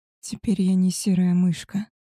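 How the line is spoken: Quiet. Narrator (Russian): тихо сказала

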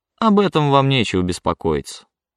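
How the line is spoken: Dry reply. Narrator (Russian): сухо ответил чиновник

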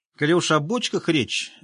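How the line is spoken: Squeaky voice. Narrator (Russian): запищал длинноносый гном

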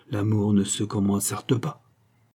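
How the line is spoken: Irritatingly modest murmur. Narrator (French): murmura Roland avec une agaçante modestie

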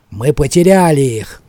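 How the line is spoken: Angry grumble. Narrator (Russian): злобно проворчал Ворон

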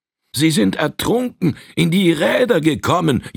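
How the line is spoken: Father wailing. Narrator (German): jammerte der Vater

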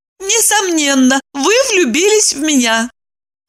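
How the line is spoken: Joyful. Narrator (Russian): Евдокия радостно заключила

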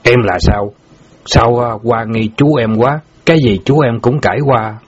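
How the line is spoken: Harsh, stern voice. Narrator (Vietnamese): Bảy núi gằn giọng

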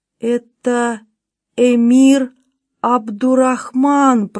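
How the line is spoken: Moaned. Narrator (Russian): простонал он

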